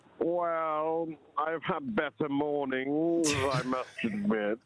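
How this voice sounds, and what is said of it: Poor Snape impression. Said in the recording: “dress up as Snape from the Harry Potter movies ... the worst Snape impression she'd ever heard ... Evie was right.”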